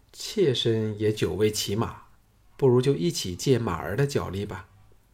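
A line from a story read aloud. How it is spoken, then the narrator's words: Cool, detached. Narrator (Chinese): 蓝公园淡淡的说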